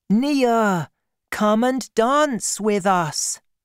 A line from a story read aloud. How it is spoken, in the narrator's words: the class cried